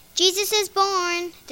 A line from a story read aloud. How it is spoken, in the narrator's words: they shouted